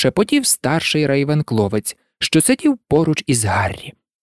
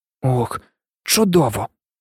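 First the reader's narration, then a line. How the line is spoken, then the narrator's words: Teenage boy whispering. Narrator (Ukrainian): прошепотів старшокласник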